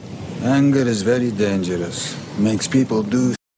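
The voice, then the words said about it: Russian accent. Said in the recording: “Russian accent ... Viggo Mortensen playing the role of Nikolai, a Russian mobster”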